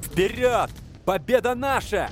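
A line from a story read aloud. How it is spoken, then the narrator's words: Group yelling. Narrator (Russian): орали они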